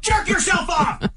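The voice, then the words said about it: Yelling. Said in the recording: “Stop yelling”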